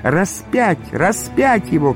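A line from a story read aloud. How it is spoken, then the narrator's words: Crowd shouting. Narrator (Russian): кричали иудеи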